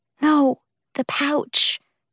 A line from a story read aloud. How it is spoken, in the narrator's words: she whispered, in horror